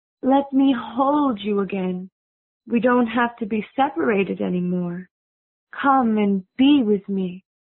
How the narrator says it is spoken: she said in a sweet voice

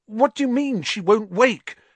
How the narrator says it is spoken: Harry said desperately

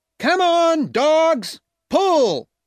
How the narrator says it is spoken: shouted

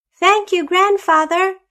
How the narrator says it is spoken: shouted the children

